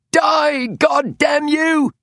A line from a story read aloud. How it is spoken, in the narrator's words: screamed Lucan Adler